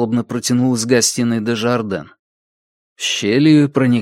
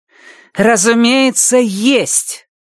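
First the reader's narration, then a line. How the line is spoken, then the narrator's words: Roaring unfamiliar voice. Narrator (Russian): проревел у него в ухе незнакомый голос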